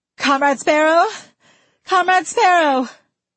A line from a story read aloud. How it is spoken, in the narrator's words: A woman's raspy voice cried out